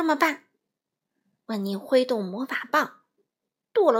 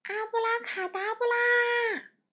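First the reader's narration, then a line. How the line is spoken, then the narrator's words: Shout. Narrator (Chinese): 大喊一声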